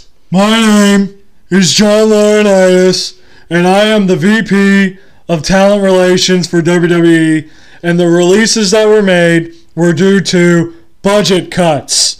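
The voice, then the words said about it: Imitates another person's voice. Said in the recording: “You do the John Laurinaitis voice.”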